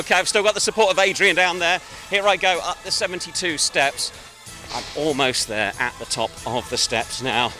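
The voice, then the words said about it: Slightly out of breath. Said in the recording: “Getting slightly out of breath.”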